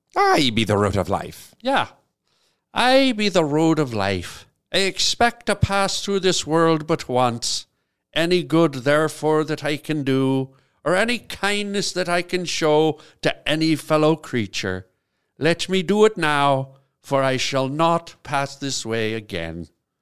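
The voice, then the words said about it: Put-on Irish accent. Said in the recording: “Should I do it in an Irish accent”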